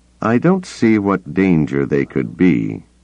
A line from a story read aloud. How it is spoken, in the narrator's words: he said slowly